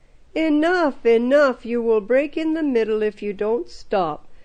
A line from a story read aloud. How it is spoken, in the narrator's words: the Emir exclaimed